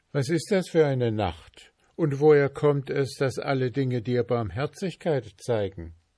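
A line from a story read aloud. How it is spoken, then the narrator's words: Asked. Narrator (German): fragte ihn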